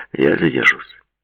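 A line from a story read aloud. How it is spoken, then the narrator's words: Dry, curt. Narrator (Russian): сухо сообщил он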